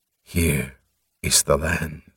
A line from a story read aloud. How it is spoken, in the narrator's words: Morum whispered